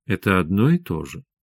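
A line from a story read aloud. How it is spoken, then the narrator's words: Soft, gentle. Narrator (Russian): мягко сказала Света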